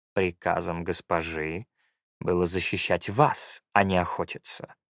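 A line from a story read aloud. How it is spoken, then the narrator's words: Plain. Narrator (Russian): сказал Эрантис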